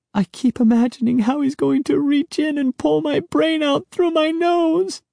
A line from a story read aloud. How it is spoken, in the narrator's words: Sari wailed